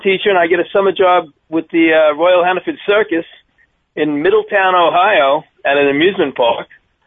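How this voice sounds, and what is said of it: Deep Long Island accent. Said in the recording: “That is not the accent I was expecting to hear ... That's a deep Long Island accent.”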